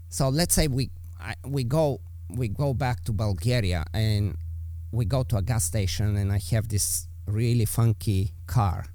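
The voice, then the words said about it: Eastern European accent. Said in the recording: “my accent, you know, I'm from Eastern Europe”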